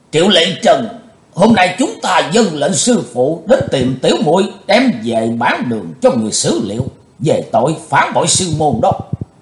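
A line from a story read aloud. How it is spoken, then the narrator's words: Loud voice. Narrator (Vietnamese): sứ giả Hải Âu lớn tiếng nói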